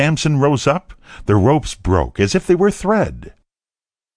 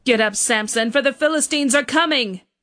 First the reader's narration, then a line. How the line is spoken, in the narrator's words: she called out as before